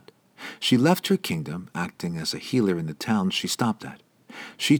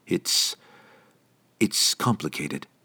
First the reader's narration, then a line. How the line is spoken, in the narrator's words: he stammered, obviously not wanting to talk about it